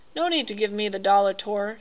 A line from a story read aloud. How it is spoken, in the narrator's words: Spangler said quietly